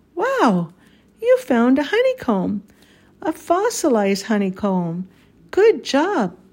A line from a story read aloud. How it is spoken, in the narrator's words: he exclaimed